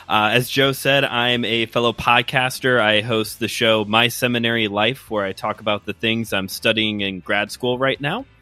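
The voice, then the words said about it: Midwestern American accent. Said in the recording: “my great Midwestern accent”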